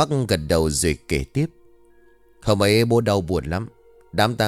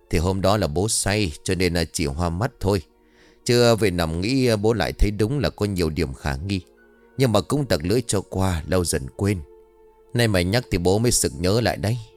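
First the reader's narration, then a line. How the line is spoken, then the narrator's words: Sighing man. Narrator (Vietnamese): Ông Bắc liền thở dài rồi bảo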